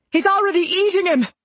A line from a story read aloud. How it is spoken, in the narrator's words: the paramedic yelled